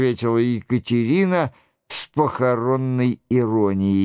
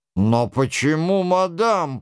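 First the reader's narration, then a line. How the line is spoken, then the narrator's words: Grumbled. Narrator (Russian): пробурчал Браво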